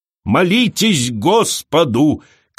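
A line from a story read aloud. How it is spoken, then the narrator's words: Shout. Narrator (Russian): кричала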